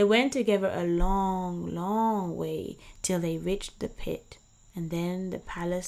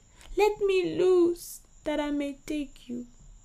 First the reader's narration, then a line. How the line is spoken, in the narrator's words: Asebu's heart broke as he cried